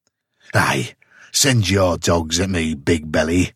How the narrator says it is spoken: sneered Conan with bitter scorn

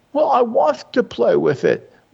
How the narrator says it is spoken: wailed the other

